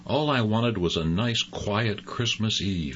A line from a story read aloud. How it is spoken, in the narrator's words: he grumbled to himself